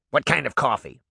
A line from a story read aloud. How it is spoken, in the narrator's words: Mallow Barb snapped